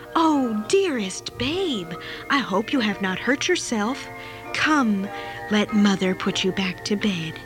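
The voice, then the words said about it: Soft, gentle voice. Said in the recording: “said in my most gentle voice,”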